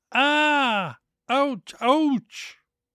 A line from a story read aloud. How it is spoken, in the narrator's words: howled with pain